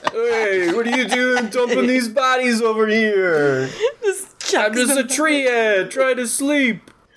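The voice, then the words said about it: Put-on New York accent. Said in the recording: “Treant from New York. ... New York accents”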